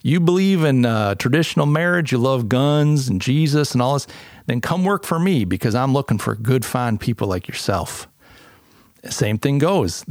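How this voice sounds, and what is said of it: Put-on Southern drawl, poorly done. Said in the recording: “I'll do this ersatz Southern drawl. Forgive me, it's terrible.”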